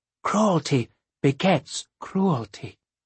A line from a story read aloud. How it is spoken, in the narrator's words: She added in a whisper